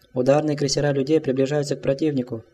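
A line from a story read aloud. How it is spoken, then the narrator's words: Quick speech. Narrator (Russian): быстро произнес адмирал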